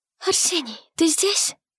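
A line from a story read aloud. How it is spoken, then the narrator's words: Dry-lipped whisper. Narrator (Russian): прошептала Елиоль пересохшими губами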